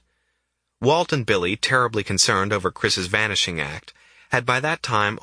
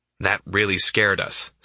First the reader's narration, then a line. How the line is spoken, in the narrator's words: says Walt